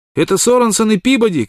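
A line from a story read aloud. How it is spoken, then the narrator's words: Shout. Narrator (Russian): крикнул кто-то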